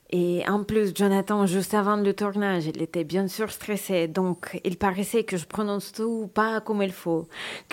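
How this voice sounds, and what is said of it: Russian accent in French. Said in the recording (French): “Je suis russe, je parle avec un accent.”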